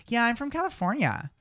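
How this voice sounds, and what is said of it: West Coast American accent, rising pitch. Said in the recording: “West Coast, like places like Oregon and California ... say their consonants more heavy, and they're going to raise their pitch of their voices at the end of words ... a very traditional West Coast accent”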